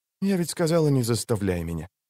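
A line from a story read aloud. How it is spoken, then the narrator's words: Whisper. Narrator (Russian): прошептала Цири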